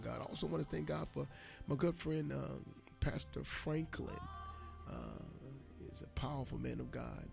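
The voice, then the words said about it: Slightly raspy voice. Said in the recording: “my voice is a little raspy after celebrating with my sisters and brothers”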